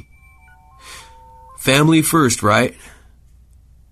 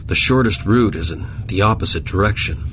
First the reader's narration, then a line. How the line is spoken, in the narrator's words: Zimmerman grumbled